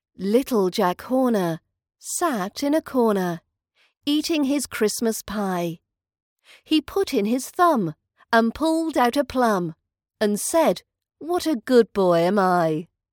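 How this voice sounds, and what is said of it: British accent. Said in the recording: “British accent training”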